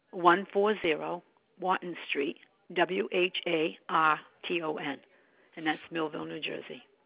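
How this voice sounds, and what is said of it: Strong Boston accent, dropped R's. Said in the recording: “I'm from Boston, so I mean I do have a strong accent, no R's”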